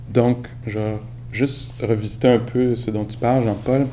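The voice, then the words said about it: Québécois French accent. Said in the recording (French): “mon accent, par exemple, québécois”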